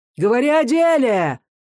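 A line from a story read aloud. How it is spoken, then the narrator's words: Rough shouting. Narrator (Russian): грубо закричали где-то рядом с матерью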